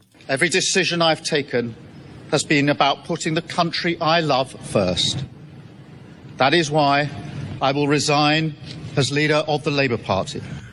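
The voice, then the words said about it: English accent. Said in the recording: “to do it in an English accent. It's so much more dramatic.”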